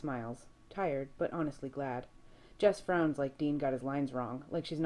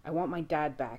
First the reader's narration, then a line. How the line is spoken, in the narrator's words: he growls